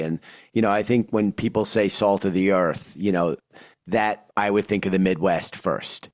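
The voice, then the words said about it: New York accent. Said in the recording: “clearly my accent, you know, confirms instincts that I am indeed a New Yorker”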